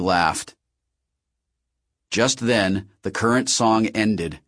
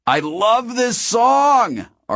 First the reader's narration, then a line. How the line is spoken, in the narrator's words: Artemis shouted